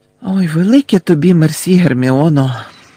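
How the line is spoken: Tired. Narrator (Ukrainian): втомлено сказав Гаррі

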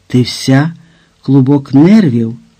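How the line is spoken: Exclaiming. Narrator (Ukrainian): вигукнув Вальтер

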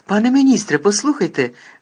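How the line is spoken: Exclaimed. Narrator (Ukrainian): вигукнув Гаррі

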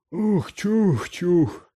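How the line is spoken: Broken voice. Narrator (Ukrainian): відповів Гегрід надламним голосом

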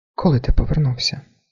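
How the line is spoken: Quiet question. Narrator (Ukrainian): так само тихо спитала вона

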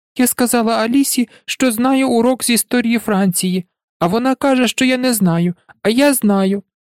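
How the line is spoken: Sobbing little girl. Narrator (Ukrainian): Дівчинка 6 років, схлипуючи

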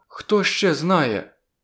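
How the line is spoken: Frightened question. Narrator (Ukrainian): злякано запитала вона

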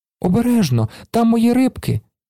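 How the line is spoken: Child's cry. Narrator (Ukrainian): скрикнув малий

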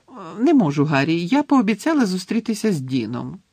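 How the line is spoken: Cheerful reply. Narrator (Ukrainian): весело відповіла Джині

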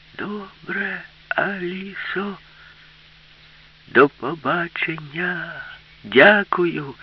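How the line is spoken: Shouting. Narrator (Ukrainian): крикнула йому Аліса

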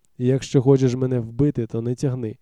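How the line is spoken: Hoarse rasp. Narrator (Ukrainian): прохрипів

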